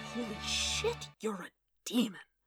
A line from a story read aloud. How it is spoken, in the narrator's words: Wade breathed